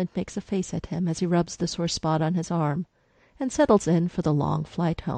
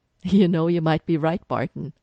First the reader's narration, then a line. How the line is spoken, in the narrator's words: Sitwell's laughing practically in Clint's ear